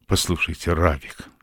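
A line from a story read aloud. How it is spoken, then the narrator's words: Heartfelt, earnest. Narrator (Russian): сказал он, наконец, проникновенным тоном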